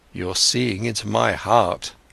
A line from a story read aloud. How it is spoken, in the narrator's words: Siddhartha spoke sadly